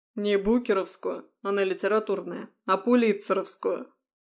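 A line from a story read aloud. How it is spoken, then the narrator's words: Grumbled aside. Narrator (Russian): пробурчал в сторону Горелов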